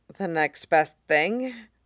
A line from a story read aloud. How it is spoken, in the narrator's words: John says grimly